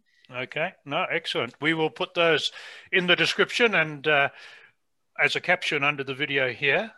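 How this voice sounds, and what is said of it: Non-North American, African-raised accent. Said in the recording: “you can probably hear from my accent that I haven't been in North America all my life ... I spent most of my life in Africa”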